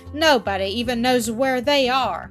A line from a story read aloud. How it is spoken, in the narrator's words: Peter sneered